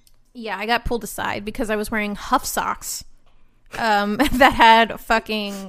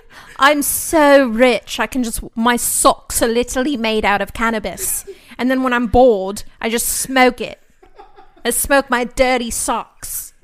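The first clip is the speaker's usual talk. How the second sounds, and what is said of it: Badly done put-on accent. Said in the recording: “That was the worst accent I've ever done.”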